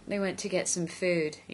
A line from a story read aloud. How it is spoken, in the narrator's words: Ianto told him sleepily